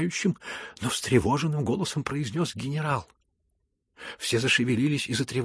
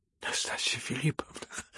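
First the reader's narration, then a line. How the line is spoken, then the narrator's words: Trembling voice. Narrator (Russian): дрожащим голосом проговорил Афанасий Иванович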